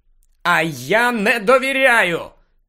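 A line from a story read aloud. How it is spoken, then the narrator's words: Shouted again. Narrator (Ukrainian): знову крикнув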